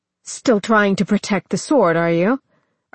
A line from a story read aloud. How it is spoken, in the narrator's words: Arthas snarled, angry and embarrassed at his reaction